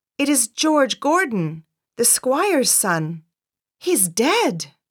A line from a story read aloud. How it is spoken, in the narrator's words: One man cried out